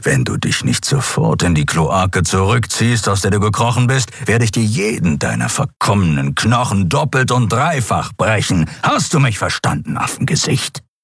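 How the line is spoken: Growling. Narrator (German): knurrte das Kriar

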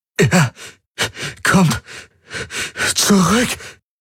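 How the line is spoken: Panting, breathless. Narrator (German): keuchte er zwischen heftigen Atemzügen

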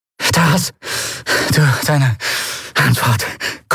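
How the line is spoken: Panting low voice. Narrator (German): keuchte sie mit gesenkter Stimme

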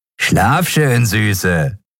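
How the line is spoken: Said with dirty laugh. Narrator (German): sagte der eine zum Abschied und lachte dreckig

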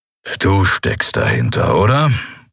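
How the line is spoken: Growled. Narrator (German): knurrte Kero

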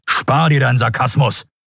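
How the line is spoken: Barked. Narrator (German): bellte Telios

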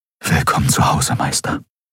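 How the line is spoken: Whispering. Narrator (German): flüsterte er

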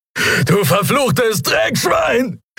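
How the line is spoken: Shouted after someone. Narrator (German): schrie Telios ihm nach

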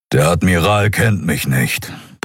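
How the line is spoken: Grumbling alien. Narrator (German): brummte der Skria

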